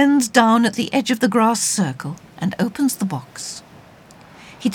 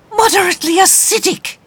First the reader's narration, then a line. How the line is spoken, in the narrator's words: he exclaims